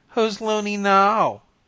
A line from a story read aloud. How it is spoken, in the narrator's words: jeered